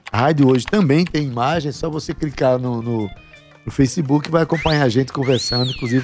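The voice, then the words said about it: Hoarse, radio-announcer voice. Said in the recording (Portuguese): “com voz de, de radialista ... Rouco ... aquela voz meio Amy House”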